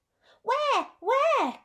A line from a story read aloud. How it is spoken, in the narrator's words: cried Rabbit, hopping from one leg to the other